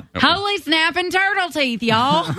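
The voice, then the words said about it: Homespun put-on Southern accent. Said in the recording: “you need to really lean into your southern accent, because I think it would sound very homespun ... Oh, it's perfect.”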